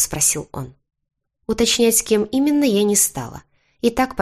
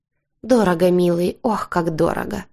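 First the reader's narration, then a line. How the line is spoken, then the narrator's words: Fake coy sigh. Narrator (Russian): фальшиво вздохнула я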